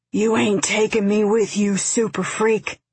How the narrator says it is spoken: he rasped

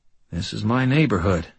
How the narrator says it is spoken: he said quietly

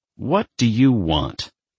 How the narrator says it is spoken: Chris snapped, not feeling at all charitable

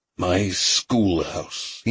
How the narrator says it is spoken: he muttered

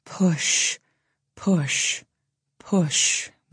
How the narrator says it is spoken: we whisper

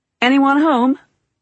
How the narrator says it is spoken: He called out

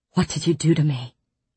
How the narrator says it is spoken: I breathed, low and guttural

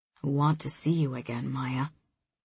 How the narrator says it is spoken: he says softly

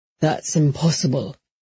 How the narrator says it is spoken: in a shaken voice, he said

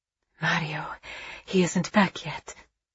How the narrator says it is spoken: she whispered

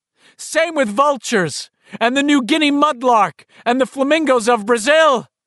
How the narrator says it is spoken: The bird screamed, ... squawking

